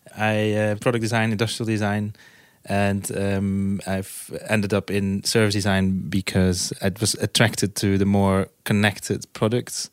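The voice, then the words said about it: Dutch accent. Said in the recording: “I'm from Holland, from the Netherlands. You might hear from my accent.”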